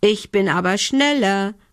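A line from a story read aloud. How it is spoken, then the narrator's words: Shouting. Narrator (German): rief Lumbi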